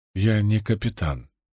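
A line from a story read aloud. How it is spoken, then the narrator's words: Soft. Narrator (Russian): мягко сказала Рисн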